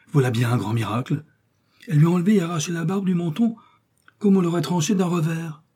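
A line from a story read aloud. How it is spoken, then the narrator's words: Exclaimed. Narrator (French): s'écria-t-il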